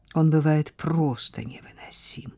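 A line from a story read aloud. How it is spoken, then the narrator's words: Loud stage whisper. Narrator (Russian): прошептала она так, что ее нельзя было не услышать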